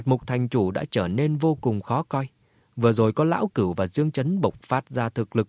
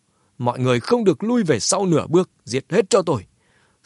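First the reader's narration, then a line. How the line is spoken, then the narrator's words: Old man shouting loudly. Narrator (Vietnamese): lão ta hét to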